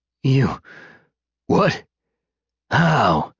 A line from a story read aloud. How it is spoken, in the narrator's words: Cal spluttered